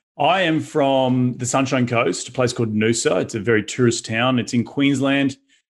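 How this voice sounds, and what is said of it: Australian accent. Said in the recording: “that's not a normal American accent. So what part of Australia are you from?”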